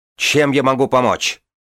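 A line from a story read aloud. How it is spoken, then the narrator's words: Shout. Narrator (Russian): крикнул Кирин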